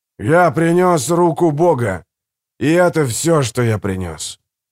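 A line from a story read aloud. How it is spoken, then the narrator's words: Thunderous preacher's exclamation. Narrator (Russian): громовым голосом воскликнул проповедник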